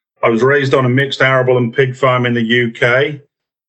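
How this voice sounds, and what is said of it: Hybrid accent, not originally local. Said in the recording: “my somewhat hybrid accent now ... you can probably tell that I wasn't originally from here”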